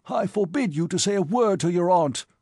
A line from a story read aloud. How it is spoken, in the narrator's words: he cried